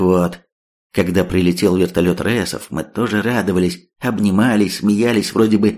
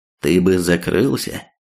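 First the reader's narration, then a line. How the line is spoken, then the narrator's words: Quite calm. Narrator (Russian): вполне спокойно ответил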